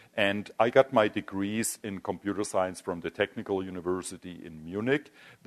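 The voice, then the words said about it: German accent. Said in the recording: “You probably guessed from my accent already that I'm not a native US citizen ... Originally, I'm from Germany.”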